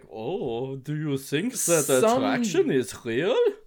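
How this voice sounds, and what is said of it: Bad put-on German accent. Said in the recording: “Thick German accents ... I'm just good at a bad German accent.”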